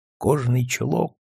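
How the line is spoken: Quiet smiling whisper. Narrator (Russian): шепчет тихо Георг и улыбается

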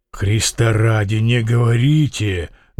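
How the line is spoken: Muffled, hollow voice. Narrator (Russian): глухо молвил Фома

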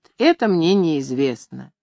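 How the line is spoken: Calm repetition. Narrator (Russian): Григорий спокойно повторяет

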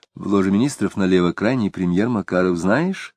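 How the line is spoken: Whispering. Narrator (Russian): шептала Елена

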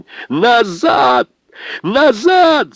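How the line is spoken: Shouting at full strength. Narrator (Russian): закричал, что есть мочи, Лукашин

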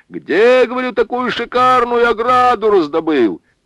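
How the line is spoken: Louder shout. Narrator (Russian): крикнул он еще громче

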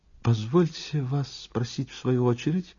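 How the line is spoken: Timid cough. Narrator (Russian): робко закашлял визави

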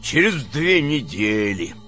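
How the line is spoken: Grumbled. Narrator (Russian): буркнул Близнецов

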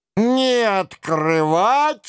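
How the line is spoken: Howling together. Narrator (Russian): взвыли четыре собутыльника

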